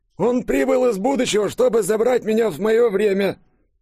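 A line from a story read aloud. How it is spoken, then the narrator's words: Frightened babbling. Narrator (Russian): Пролепетал испуганный еврей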